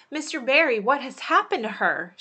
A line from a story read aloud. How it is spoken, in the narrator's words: she gasped